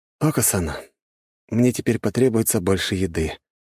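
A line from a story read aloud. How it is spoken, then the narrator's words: Sighing statement. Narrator (Russian): вздохнув, сообщил я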